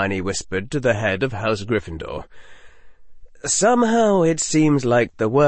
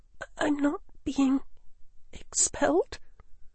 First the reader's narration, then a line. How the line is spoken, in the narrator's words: the girl whispered